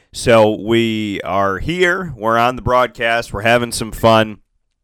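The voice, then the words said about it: Congested, sinus-affected voice. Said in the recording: “As you can hear in my voice, I'm sure you can hear a little bit different. It sounds different to me... some type of sinus thing”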